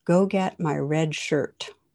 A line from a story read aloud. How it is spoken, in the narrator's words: the captain replies calmly